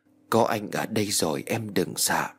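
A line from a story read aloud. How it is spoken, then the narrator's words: Tender happy whisper. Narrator (Vietnamese): Văn Phi hạnh phúc, hắn thì thầm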